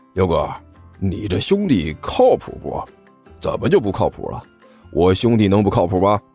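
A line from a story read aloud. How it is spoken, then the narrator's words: Low voice. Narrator (Chinese): 二秃子对刘阿贝低声说道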